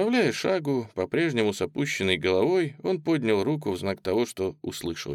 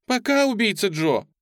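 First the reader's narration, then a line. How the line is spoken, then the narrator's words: Upset shout. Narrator (Russian): Пегги расстроенным голосом крикнула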